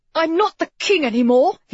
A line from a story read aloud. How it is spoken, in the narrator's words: he blurted out stupidly